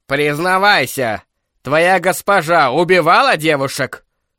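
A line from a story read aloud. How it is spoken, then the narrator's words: Shouted. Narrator (Russian): выкрикнул кардинал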